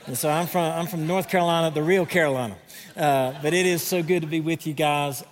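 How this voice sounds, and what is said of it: American Southern accent. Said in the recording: “You're going to have to deal with my southern accent today... a little southern in here”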